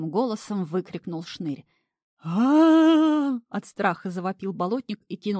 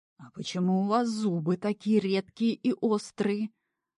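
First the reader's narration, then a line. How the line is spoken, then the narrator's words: Cautious quiet question. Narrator (Russian): опасливо тихо уточнил налетчик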